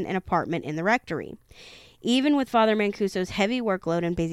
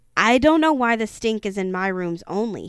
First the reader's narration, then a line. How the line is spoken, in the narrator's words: barked